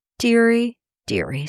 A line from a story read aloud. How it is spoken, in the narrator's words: sighed Papa Panov